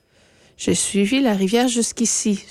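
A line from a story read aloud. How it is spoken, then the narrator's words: Sighing. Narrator (French): soupira-t-elle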